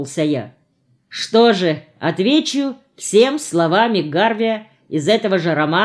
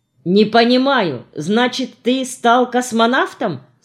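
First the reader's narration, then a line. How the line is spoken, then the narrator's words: Plain. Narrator (Russian): спросил Женя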